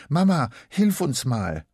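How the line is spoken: Panting, calling out. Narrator (German): schnauft Elisa und ruft

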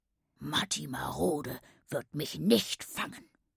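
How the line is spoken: Murmuring aside. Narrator (German): raunte er mir zu

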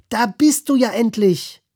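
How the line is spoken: Sudden call. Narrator (German): Plötzlich flatterte ein Flamingo auf und rief

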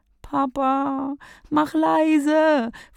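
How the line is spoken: Pleading over noise. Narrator (German): flehe durch den Lärm hindurch

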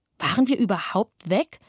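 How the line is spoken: Plain. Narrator (German): fragte ich

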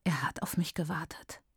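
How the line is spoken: Whisper. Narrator (German): flüstert Maitaka und erstarrt

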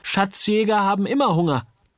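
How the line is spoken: Calling. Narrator (German): rief Uli

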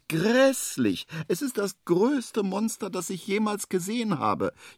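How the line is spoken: Wailing, trembling with fear. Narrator (German): jammert es weiter und zittert am ganzen Leibe

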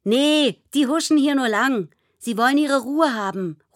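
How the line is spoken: Calling after someone. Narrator (German): ruft Noah ihr hinterher

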